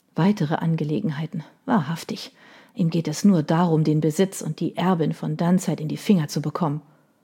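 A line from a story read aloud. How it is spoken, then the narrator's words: Mother murmuring. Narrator (German): hörte sie ihre Mutter murmeln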